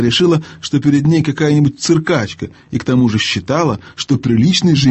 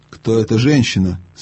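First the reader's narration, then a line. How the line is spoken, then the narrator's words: Plain. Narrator (Russian): спросила Ядис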